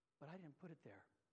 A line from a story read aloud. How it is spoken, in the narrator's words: The Lord looked somber, and he whispered